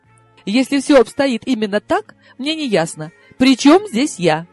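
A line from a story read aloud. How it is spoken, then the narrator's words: Exclaiming. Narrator (Russian): я вынуждена была воскликнуть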